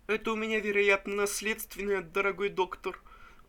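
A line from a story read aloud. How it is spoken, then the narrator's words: Sobbing remark. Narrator (Russian): Заметил рыдающий Пузырев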